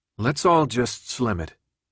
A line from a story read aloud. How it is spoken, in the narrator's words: Thomas spoke evenly